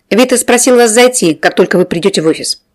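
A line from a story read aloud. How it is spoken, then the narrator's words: Brusque commanding tone. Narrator (Russian): приказным тоном распорядилась беспардонная девица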